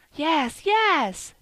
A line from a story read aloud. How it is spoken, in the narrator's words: cried Phronsie, perfectly delighted at being at last understood